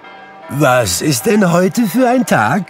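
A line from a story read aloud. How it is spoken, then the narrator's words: Calling down to boy. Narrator (German): rief Scrooge einem Knaben in Sonntagskleidern zu, der unterm Fenster stand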